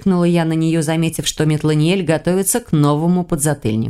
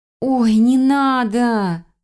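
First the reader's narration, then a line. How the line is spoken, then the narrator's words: Drawn-out, wincing. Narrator (Russian): протянула я, поморщившись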